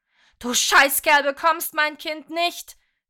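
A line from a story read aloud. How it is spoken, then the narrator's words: Screaming. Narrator (German): schrie sie noch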